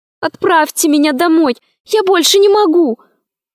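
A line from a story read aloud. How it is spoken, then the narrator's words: Desperate pleading. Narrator (Russian): взмолилась она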